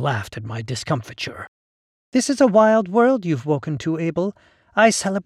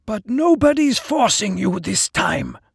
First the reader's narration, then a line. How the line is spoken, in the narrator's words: Vekram said hoarsely